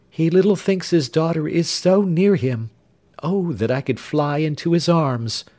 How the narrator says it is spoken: replied Jenny, sighing

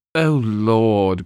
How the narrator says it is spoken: groaned George

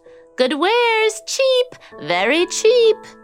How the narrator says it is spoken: she cried out

